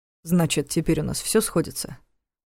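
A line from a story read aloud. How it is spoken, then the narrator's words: Quiet question. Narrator (Russian): Тихо спросил он Нева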